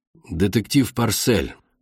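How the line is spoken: Tired, over the line. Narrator (Russian): устало сказали с той стороны связи

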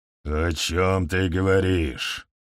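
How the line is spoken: Growling. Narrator (Russian): прорычал Нилгхан

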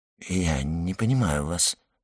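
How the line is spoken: Muttered. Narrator (Russian): пробормотал Люсьен

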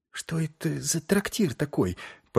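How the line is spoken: Whisper. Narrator (Russian): прошептала Шельма

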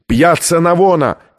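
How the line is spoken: Shout. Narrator (Russian): крикнул ученый

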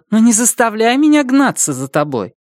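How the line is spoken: Irritated. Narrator (Russian): она раздраженно прибавила

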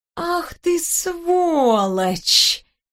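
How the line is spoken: Slow drawl. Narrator (Russian): медленно протянула я

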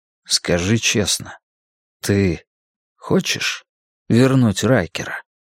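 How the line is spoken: Quiet speech. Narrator (Russian): тихо промолвил я

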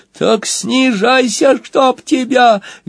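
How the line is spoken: Shrill demand. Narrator (Russian): визгливо потребовал Сквилл

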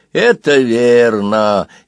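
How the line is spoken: Snide agreement. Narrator (Russian): ехидно согласился кто-то из его друзей

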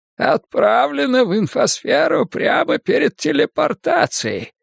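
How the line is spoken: Hoarse wheeze. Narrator (Russian): просипел Селен

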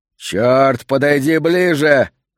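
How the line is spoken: Yelled. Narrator (Russian): заорал тот, что был справа

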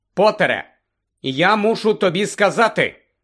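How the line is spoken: Loud, clear speech. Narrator (Ukrainian): голосно й виразно промовив він

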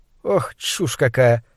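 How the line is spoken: Laughing. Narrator (Russian): она вновь смеялась

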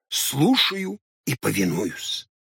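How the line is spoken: Whispering intently. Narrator (Russian): повторил Хоттабыч и что-то зашептал, сосредоточенно прищелкивая пальцами

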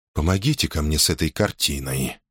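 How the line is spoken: Calm command. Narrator (Russian): спокойно распорядился он

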